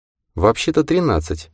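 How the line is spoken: Quiet remark, woman. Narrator (Russian): тихо заметила майор Джейн

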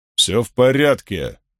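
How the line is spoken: Calm but firm. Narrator (Russian): сказал Гуд спокойно, но твердо

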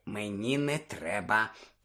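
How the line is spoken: Whisper. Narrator (Ukrainian): прошепотів Рон

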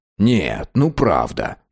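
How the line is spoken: Muttering. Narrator (Russian): бормотал город

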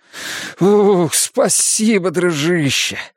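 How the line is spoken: Sighing. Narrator (Russian): он вздохнул

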